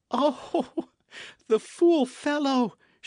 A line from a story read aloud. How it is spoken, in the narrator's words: cried